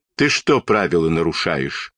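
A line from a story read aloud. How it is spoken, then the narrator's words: Stern policeman's question. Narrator (Russian): строго спросил милиционер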